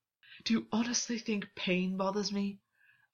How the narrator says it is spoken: August gasped

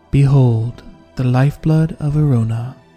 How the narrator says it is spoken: said Russo, calmly

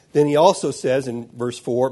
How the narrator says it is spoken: my mouth stammered

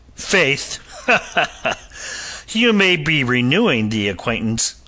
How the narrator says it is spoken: the captain laughed unpleasantly

